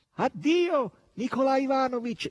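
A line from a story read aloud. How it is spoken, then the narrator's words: Shouted. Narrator (Italian): gridò Margherita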